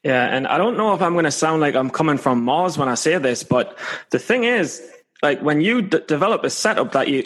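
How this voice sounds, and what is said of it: Scottish accent. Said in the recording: “a janky British accent? ... A Scottish one.”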